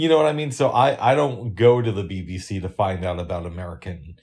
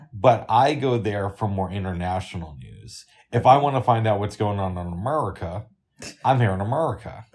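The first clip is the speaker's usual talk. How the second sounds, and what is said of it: Put-on southern American accent. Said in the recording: “please stop with the southern accent? ... Kind of annoying.”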